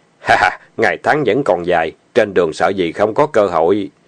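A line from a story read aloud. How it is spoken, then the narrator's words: Laughing heartily. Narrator (Vietnamese): Lý Tư ha hả cười lớn nói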